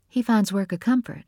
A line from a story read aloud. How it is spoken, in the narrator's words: Nora said